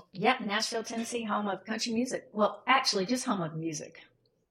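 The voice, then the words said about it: Southern American accent. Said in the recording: “that Southern accent right off the bat ... you're in Nashville, Tennessee”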